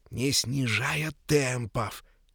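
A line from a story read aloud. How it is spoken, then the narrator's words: Whisper into ear. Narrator (Russian): Петька шепотом пересказывал деду в самое ухо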